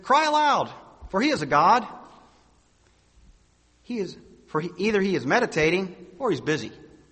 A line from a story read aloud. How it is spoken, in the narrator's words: Elijah mocked them and said